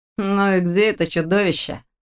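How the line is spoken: Lazy inquiry. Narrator (Russian): лениво поинтересовался Лерик

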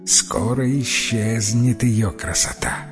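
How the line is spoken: Barely audible murmur. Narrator (Russian): еле слышно пробормотала в полголоса

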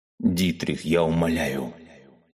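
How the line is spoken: Groaning plea. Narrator (Russian): простонал Корникир

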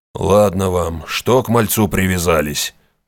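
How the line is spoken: Deep voice, grey-haired veteran. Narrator (Russian): пробасил седой ветеран

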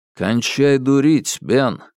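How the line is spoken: Calm. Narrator (Russian): спокойно произнес Алби

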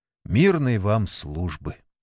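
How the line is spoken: Very quiet repetition. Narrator (Russian): Сергей Митрофанович совсем уж тихо повторил

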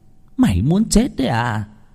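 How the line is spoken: Hiss. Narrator (Vietnamese): cô Năm rít lên

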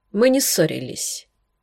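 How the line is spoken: Young woman, tired sigh. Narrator (Russian): ответила молодая женщина и устало вздохнула

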